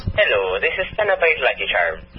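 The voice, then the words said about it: Put-on Irish accent. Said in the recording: “Stop the Irish accent.”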